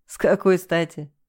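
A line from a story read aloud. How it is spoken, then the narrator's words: Laughing. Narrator (Russian): засмеялся он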